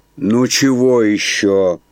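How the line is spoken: Lazy question. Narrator (Russian): лениво спросила она

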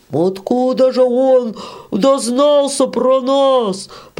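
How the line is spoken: Man shouting. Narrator (Russian): прокричал мужичок с черной бородой

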